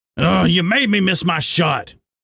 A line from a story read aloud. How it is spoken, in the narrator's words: the pine marten growled